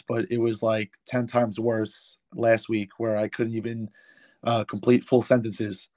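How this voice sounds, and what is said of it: Slightly hoarse voice. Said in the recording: “my voice is still a little hoarse”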